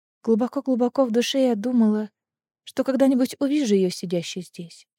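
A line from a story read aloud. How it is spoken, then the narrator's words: Quiet. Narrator (Russian): тихо сказала Лиссандра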